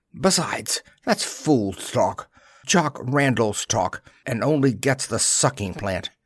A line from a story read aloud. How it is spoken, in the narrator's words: She added sharply